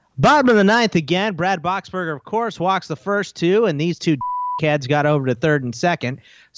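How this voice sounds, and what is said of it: Imitates a baseball announcer's voice. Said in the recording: “your impression of the Diamondbacks announcer”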